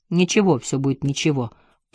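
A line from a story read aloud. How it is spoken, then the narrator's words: Muttered. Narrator (Russian): пробормотал Джек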